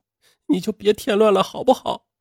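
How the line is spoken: Crying. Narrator (Chinese): 邓欣然却 哭着说

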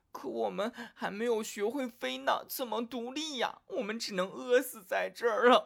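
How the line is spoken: Crying out, young crows. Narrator (Chinese): 这些小乌鸦……哭喊着

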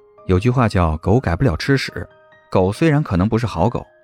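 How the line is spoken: Cool, faint laugh. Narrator (Chinese): 谢景亭唇角微勾，淡淡的笑道

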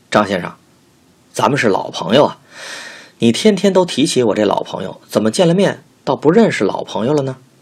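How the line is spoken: Humorous teasing tone. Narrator (Chinese): 笑过后，用诙谐的语气调侃地说

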